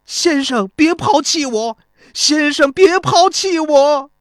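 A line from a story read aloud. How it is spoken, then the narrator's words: Crying out, sobbing. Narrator (Chinese): 孙膑张着手哭喊着说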